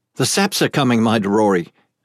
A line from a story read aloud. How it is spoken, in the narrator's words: Ake cried